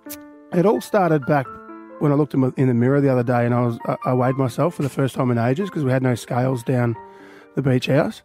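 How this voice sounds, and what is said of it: Hoarse, nearly lost voice. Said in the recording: “My voice. ... my voice is still gone ... you've got to talk over the music, and the music was loud ... I had to talk to everybody ... My voice is gone.”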